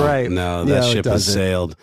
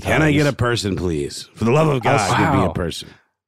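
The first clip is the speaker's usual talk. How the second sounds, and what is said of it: Grumpy, exasperated voice. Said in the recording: “I do it in the grumpiest voice possible and just sound completely, you know, and it's real. I'm not putting it on.”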